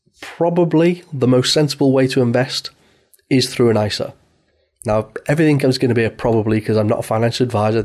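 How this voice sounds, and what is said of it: British accent. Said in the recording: “this podcast, and me, in fact, if you hadn't guessed from the accent, is targeted more for a UK audience”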